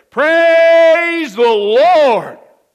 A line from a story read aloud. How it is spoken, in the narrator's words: she would shout